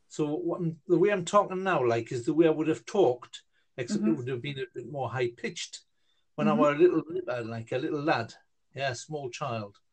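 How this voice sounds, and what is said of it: Geordie accent. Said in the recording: “I don't know if you've ever heard like a Geordie accent. like people talk from like that's the way people talk up in Newcastle... I would have spoken like the way that I've just spoken now in that accent.”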